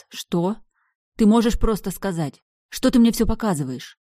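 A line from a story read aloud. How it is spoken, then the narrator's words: Snapping retort. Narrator (Russian): Огрызнулась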